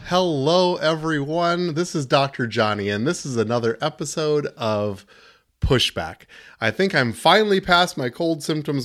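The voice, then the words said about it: Slightly gravelly voice. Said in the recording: “My voice is still just a little gravelly”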